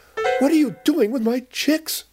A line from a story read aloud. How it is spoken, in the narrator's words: cried Mama Ostrich